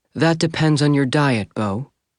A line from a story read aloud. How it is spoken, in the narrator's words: Corrine said calmly